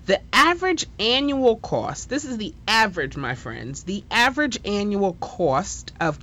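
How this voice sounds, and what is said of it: New York accent. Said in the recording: “that's my New York accent coming out, sorry”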